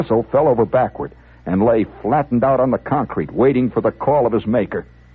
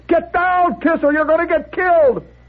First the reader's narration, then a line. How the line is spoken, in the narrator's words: Someone yelled